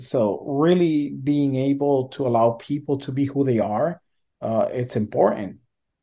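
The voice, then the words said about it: Non-native English accent. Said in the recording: “I was born in another country ... I do have an accent.”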